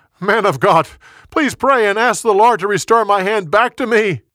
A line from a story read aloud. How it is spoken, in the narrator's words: He yelled again